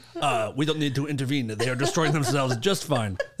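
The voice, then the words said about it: Put-on vaguely Russian accent. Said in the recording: “That's my best Chinese accent ... I didn't want to do full on ... So instead I went sort of Ruski.”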